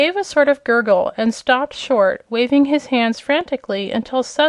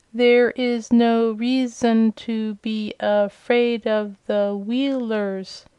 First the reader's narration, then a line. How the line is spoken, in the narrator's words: said, the words coming more slowly than before